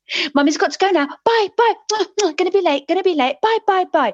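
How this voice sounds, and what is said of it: Child's impersonation of a hurried mum. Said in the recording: “she does impersonations of people. And her impersonation of me was this.”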